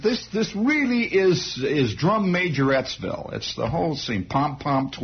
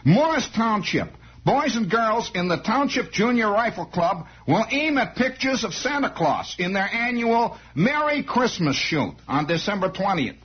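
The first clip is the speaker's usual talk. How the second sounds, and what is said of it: Put-on New Jersey accent. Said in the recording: “Maybe I better adopt my Jersey accent, huh?”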